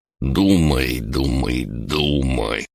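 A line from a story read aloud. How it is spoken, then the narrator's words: Muttering to oneself. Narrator (Russian): пробормотал я себе под нос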